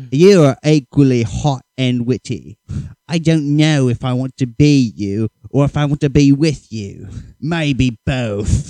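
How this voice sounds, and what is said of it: Stereotypical British accent. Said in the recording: “I'm going to do a stereotypical British voice”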